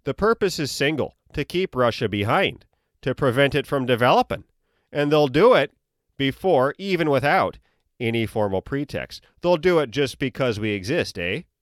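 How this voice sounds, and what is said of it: Exaggerated North Dakota accent. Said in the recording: “that accent is cartoonish and offensive, I have relatives in Minot, North Dakota, and they actually sound like that ... that stupid, stupid accent”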